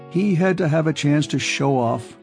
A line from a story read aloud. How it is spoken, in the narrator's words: said Anthony with a scornful laugh